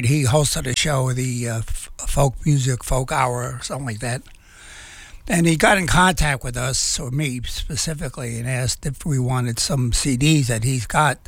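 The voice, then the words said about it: Slightly raspy voice. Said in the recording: “my voice sounds a little raspy. My allergies are kicking in.”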